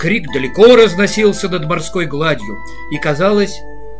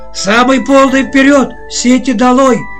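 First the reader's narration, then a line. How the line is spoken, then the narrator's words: Captain's hoarse shouting. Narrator (Russian): кричал сразу осевшим голосом капитан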